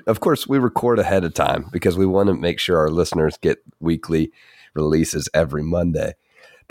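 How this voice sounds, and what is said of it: Deeper voice from illness. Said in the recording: “I've been sick this week ... my voice is a little bit deeper. I think it's my Mechagodzilla voice this week ... I've been under the weather a little bit”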